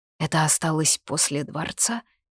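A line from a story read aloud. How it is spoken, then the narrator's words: Quiet question. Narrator (Russian): тихо спросила Лита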